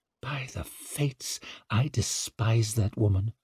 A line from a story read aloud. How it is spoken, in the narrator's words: muttered Savine